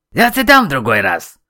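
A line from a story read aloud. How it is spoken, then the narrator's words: Sharp shout. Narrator (Russian): прикрикнул Камиль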